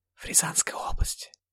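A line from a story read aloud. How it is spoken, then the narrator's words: Whispered answer. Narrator (Russian): также шепотом ответила Рана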